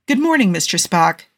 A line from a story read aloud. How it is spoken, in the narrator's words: Jim said cheerfully